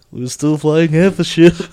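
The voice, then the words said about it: Imitates another person's voice. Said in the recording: “give us your Alec Guinness impression”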